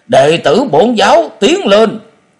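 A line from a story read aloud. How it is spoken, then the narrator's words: Loud shout. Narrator (Vietnamese): Miệng của hắn quát lớn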